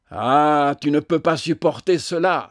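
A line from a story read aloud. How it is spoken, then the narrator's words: Painfully triumphant exclamation. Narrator (French): s'écria-t-il avec un accent de triomphe qui faisait mal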